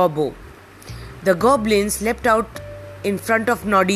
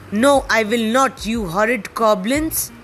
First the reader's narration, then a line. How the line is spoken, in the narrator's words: said Noddy crossly